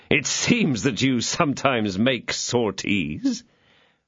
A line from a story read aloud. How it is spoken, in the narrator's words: said D'Artagnan, laughing